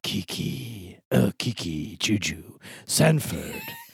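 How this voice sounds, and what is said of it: Imitates a TV character's voice. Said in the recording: “my impression of Caleb Nichol”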